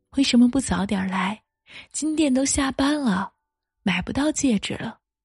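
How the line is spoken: Laughing. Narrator (Chinese): 你笑着说

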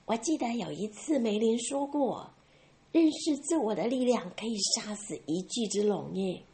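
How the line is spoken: Whisper in ear. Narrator (Chinese): 瑞贝卡在武士耳边小声的说

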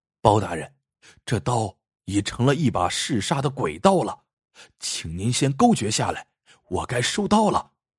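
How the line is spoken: Soft reminder. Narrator (Chinese): 阿贵轻声提醒包公

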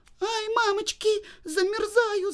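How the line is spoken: Shouting, then crying. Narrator (Russian): закричала Женя и стала плакать

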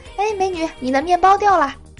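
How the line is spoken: Teasing call. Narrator (Chinese): 我就想调戏一下那个女的，我就喊

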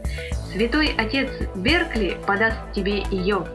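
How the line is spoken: Cheerful reply. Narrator (Russian): весело отозвался Андерс

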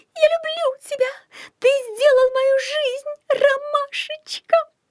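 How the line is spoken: Girl's shriek. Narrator (Russian): Взвизгнула какая-то девушка

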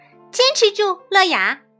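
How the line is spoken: Loud shout. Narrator (Chinese): 茉莉大声喊道

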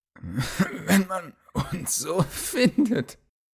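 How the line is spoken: Slightly tipsy. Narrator (German): begann Theowin, welcher nicht ganz so lattenstramm war wie sein Kamerade

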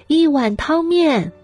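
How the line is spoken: Loud call. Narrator (Chinese): 老板娘大声喊

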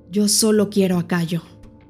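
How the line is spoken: Flat voice. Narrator (Spanish): dijo Tania con voz plana

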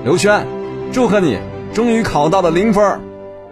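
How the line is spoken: Loud happy announcement. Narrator (Chinese): 刘墉那天很高兴 大声宣布

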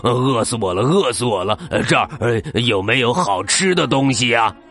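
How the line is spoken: Panting, out of breath. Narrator (Chinese): 喘着气儿说

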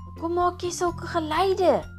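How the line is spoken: Shouting. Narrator (Afrikaans): skree hy vir haar

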